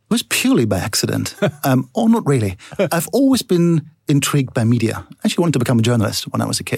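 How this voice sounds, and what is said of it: German accent. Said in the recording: “I started in Germany, as you can hear from my accent”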